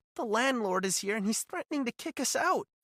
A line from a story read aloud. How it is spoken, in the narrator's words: she said, her voice trembling